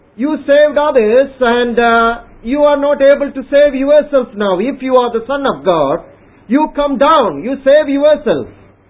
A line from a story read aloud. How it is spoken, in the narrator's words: The people who were passing by the cross, they were mocking at Jesus Christ and saying